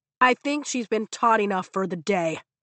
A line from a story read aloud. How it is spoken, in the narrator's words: Dane barks